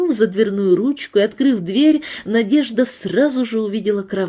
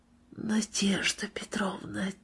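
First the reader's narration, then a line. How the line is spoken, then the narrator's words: Soft tearful whisper. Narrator (Russian): тихо прошептал больной, и на его глазах появились слезы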